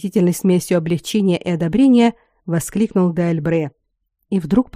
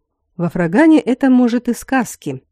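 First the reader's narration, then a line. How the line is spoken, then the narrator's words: Grim. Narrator (Russian): мрачно сказал Аластор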